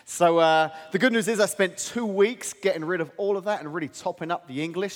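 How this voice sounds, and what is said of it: English accent. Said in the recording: “my homeland of England... I talk at my funny accent... I've picked up some Americanisms”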